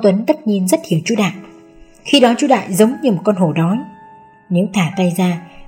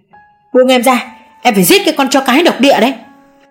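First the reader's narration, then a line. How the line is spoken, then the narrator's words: Screaming. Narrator (Vietnamese): Chú Đại gào lên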